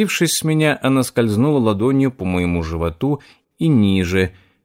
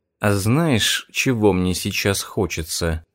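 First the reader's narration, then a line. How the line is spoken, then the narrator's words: Purring. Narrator (Russian): мурлыкнула она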